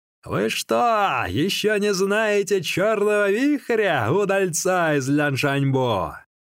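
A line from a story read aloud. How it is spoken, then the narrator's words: Loud shouting. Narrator (Russian): он громко кричал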